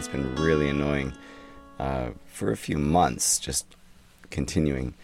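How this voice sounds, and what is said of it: Sick-sounding voice. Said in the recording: “You can hear it in my voice. ... I have indeed been under the weather”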